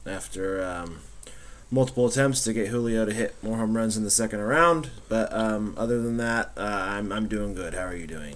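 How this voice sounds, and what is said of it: Slightly scratchy voice. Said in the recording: “My voice is a little scratchy today”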